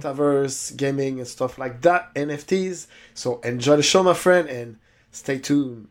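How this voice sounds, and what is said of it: Spanish-sounding accent in English. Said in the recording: “what accent is that? Is he like Spanish? ... it sounds kind of Spanish to me.”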